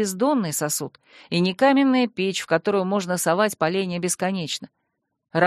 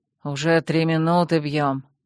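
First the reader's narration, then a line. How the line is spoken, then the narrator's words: Displeased exhale. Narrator (Russian): недовольно выдохнул Стайн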